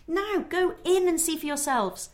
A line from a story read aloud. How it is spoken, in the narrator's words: cried